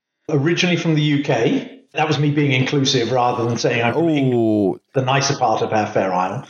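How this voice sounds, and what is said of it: British accent. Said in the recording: “He has got a different accent than I have... he has got a strange accent”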